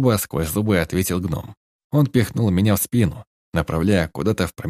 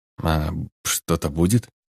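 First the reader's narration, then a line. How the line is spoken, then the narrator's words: Barely audible whisper. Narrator (Russian): Прошептал я едва слышно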